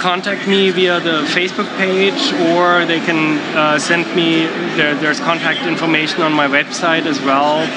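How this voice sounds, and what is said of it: German accent. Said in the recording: “your accent, you were originally from Germany”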